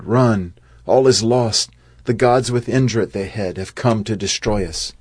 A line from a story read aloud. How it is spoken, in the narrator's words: As they ran, they cried